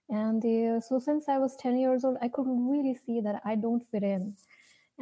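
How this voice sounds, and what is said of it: Indian accent. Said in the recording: “As you can see from my name and my accent, probably you can see I'm from India.”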